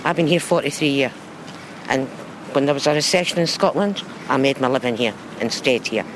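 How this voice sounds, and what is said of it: Scottish accent. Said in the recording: “I've noticed from your accent. ... Scottish.”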